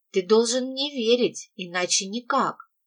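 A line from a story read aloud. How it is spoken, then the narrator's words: Whisper. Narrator (Russian): прошептала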